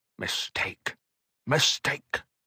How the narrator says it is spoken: Belonda muttered

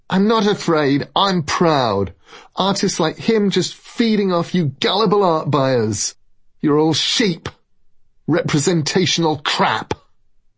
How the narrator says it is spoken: She shouted at us as she went

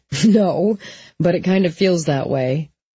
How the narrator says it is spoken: Jesse laughed and said

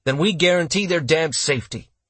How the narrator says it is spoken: Barbeau snapped

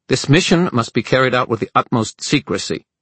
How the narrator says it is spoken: Dearborn snapped

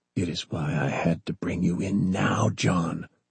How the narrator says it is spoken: Bob said softly

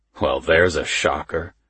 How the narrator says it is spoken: he says dryly

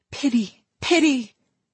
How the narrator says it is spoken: her mother cried out

